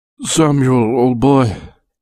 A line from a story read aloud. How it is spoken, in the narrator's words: moaned